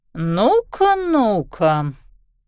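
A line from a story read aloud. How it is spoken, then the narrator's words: Drawl. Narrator (Russian): протянула она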